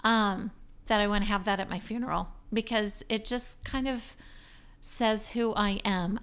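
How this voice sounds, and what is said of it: Hoarse, failing voice. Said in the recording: “Gosh, I'm losing my voice.”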